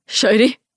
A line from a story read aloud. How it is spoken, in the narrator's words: he says, his voice relieved